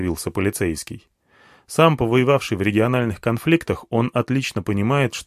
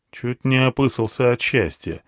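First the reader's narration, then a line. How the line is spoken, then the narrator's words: Grumbled. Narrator (Russian): буркнул я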